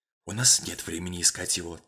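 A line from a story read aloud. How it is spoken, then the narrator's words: Whispered reply. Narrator (Russian): также шепотом ответил Мейсон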